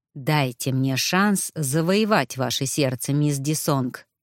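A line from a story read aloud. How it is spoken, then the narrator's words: Ingratiating, insistent. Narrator (Russian): вкрадчиво и настойчиво проговорил император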